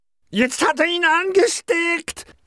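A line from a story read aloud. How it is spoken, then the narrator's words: Angry hat shrieking. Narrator (German): kreischte bös sprechender Hut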